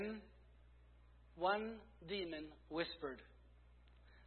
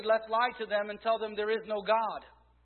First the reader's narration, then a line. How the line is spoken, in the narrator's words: Another shouted